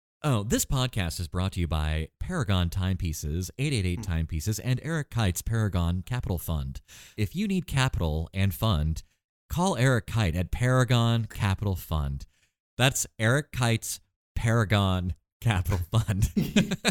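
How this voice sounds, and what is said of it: Announcer-style radio voice. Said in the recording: “in my radio voice.”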